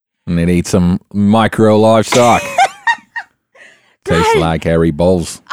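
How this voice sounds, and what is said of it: Put-on Australian accent. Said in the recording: “We have not had an Australian accent on in a hot second ... I did not realize how much I missed your Aussie accent”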